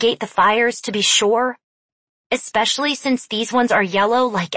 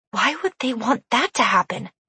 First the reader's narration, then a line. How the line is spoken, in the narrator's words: She whispered